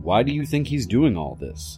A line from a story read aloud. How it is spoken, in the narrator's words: the officer asked